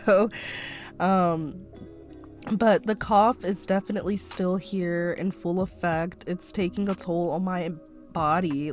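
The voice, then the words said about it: Raspy voice from a cold. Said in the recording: “physically I sounded really bad ... my voice gets really raspy ... if I have to clear my throat ... still fighting whatever this cold is”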